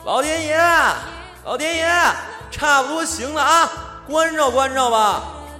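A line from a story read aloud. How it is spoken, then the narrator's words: Shouting. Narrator (Chinese): 我们冲着黑漆漆的窗外喊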